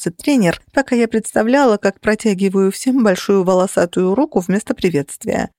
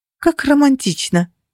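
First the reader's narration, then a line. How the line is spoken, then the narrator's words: Interrupting, unsteady voice. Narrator (Russian): перебила я ведущего, пытаясь совладать со своим неуверенным голосом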